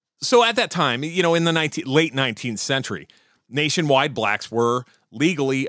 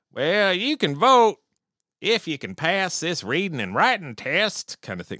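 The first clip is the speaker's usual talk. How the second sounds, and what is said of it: Put-on Southern US accent. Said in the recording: “Sorry about the Southern accent. I don't mean to offend anybody in the South that actually might speak like that.”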